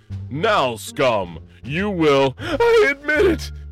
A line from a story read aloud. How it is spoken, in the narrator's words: cried the senator